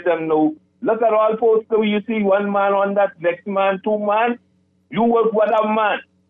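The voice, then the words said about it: Weak put-on Haitian Creole accent. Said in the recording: “your Haitian accent was slipping out of there ... You need to work on that Creole accent, all right? Listen, because that was weak”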